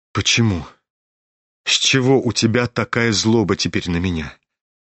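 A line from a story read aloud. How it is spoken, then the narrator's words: Sad, ardent prince. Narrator (Russian): Грустно и с жаром подхватил князь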